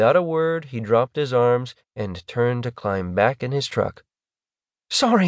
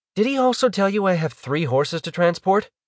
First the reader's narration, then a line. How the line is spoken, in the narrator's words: she interrupted, her voice rising in exasperation